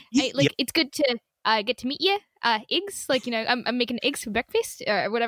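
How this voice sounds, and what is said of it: Poor put-on New Zealand accent. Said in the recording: “the New Zealand accent, ... everything ends like a question ... I think it's every E ... that was really bad because I was on the spot”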